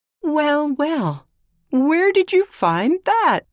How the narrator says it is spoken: cried Grandma

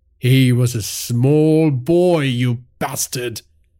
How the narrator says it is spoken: Virat said, his voice tinged with rage and sadness

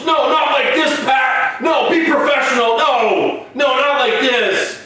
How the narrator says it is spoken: Michael Cole yells

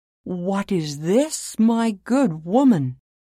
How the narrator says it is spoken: he cried in exclamation

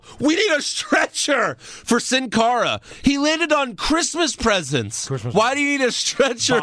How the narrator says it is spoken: the refs yell

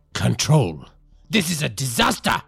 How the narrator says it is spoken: Don Ernesto spat, his voice icy with disdain

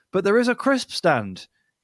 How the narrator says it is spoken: he exclaimed

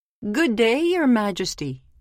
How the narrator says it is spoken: called out the miller

